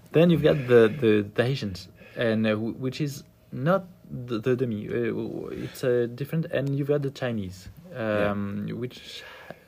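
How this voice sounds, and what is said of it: French accent. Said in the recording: “Ooh, listen to the French accent.”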